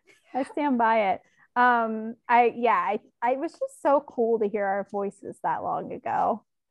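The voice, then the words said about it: Speaks with a noticeable accent. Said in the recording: “I was hoping I would grow out of my accent a little, but I still sound the same.”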